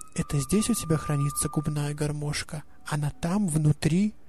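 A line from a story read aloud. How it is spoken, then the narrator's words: Solemn whisper. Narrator (Russian): Малышка торжественно прошептала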